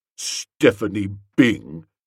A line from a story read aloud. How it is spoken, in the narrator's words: said bitterly